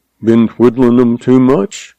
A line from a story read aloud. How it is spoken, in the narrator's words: He asked dryly